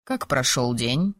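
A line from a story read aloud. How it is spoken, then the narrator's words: Calm question. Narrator (Russian): спокойно спросил мой спутник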